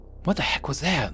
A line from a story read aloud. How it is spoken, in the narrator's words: Luke whispered loudly